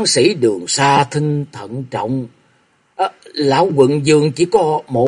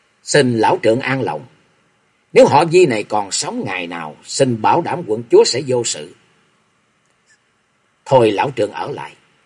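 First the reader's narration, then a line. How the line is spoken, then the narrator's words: Stern. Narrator (Vietnamese): nghiêm giọng nói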